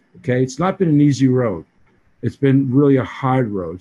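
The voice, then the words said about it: Boston accent. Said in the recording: “I'm the guy from Hawaii with this Boston accent.”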